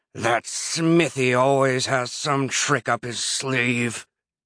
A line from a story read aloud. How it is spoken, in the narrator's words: Herobrine growled